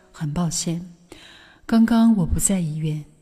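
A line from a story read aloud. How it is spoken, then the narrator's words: Doctor, calm smiling. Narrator (Chinese): 医生淡然的笑着说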